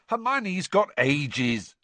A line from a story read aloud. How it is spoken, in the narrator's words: snapped Ron